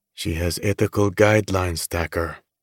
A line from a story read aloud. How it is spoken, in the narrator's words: Raoul says quietly, the empathy in his voice